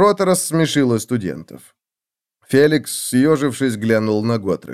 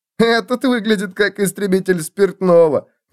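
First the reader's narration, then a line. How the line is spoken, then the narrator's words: Loud. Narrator (Russian): громко сказал он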